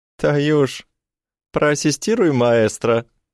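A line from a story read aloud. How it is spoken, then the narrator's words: Giggling. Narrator (Russian): Хихикает Ира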